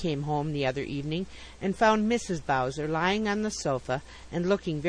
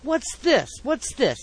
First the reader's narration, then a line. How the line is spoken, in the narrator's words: exclaimed Mr